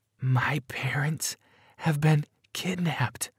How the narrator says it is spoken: whispered in a shaky voice

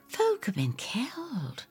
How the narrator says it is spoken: I whisper

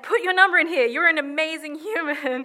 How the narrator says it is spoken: Lou is gesturing excitedly, saying

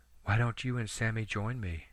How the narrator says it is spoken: she asked softly

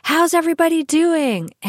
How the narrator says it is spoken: some of the instructors shout out things to the class

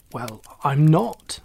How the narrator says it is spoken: said Oliver crossly

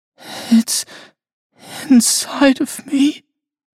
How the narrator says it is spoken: she whimpered

